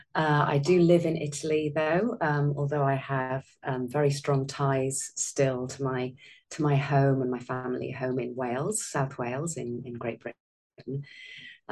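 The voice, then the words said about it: British accent. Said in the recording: “I'm originally British, as you can probably tell by my accent.”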